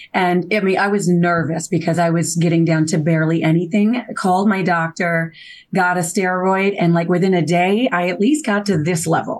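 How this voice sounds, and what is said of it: Hoarse, laryngitis-roughened voice. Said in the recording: “I understand you're a little hoarse today. ... I am a little hoarse. ... I first started to kind of feel a little laryngitis coming on”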